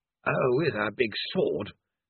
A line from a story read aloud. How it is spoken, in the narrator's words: grumbled Mr